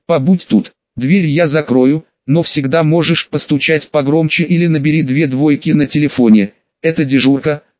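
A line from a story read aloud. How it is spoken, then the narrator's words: Plain. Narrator (Russian): сказал сопровождающий гранита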